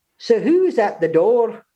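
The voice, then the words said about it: Poor put-on Scottish accent. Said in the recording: “My Scottish accent is so bad.”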